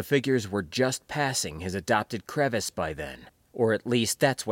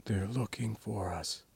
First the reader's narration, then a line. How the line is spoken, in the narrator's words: breathed, so lowly he could barely hear it himself